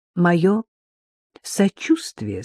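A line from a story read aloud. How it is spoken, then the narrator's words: Sighing, pitying. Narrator (Russian): сказала она, вздохнув и с жалостью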